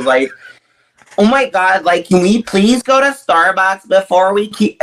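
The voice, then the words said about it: Nasal American girl accent. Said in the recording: “American accent, like, it's very basic... I can do, like, the American girls... very, very nasally”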